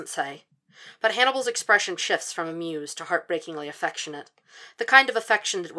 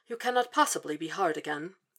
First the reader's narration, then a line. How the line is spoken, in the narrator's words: says in his odd, prim voice